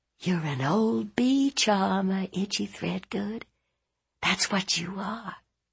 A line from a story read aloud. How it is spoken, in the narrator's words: Ruth whispered in her ear